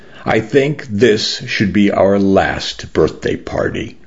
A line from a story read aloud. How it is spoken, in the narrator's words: I said slowly through the grief and the ache in my chest